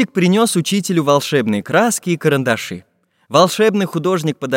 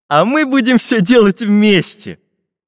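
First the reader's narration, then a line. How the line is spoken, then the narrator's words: Laughing. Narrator (Russian): засмеялся Карандаш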